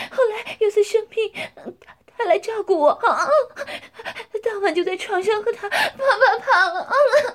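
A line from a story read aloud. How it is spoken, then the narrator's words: Breathless, panting. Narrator (Chinese): 江环被撞得娇喘吁吁，接着说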